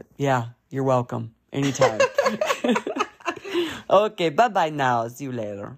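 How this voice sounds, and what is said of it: Very low radio-style voice. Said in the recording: “I'm going into my radio voice. It's like really low.”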